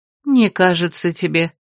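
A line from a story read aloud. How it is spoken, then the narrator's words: Sighed. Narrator (Russian): вздохнула телохранительница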